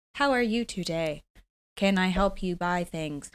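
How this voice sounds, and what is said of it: Robotic salesperson voice. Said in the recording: “That was a good robot voice.”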